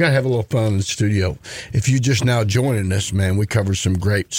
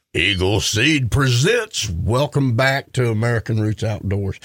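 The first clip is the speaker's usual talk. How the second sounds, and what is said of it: Deep booming radio announcer voice. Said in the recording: “That's my radio voice ... he, goes all Darth Vader when he comes in the intro”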